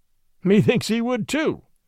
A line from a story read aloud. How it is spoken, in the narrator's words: quoth Robin, laughing